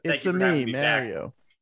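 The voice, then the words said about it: Fake Italian accent. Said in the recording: “he's going to do a fake Italian accent in the Mario movie”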